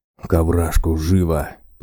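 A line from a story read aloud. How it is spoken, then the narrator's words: Bear hissing. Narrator (Russian): прошипел медведь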